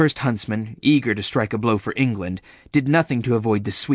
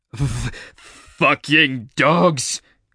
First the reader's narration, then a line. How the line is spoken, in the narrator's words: He spat